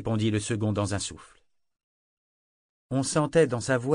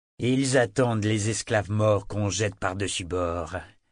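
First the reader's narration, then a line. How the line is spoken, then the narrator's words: Acid tone. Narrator (French): dit Sorcor d'un ton acide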